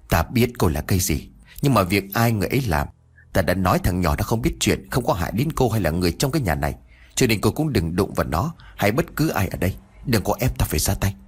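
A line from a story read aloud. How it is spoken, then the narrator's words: Soft, gentler old man. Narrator (Vietnamese): Ông ấy khẽ nói với một điệu bộ khác với vẻ cục cằn sáng nay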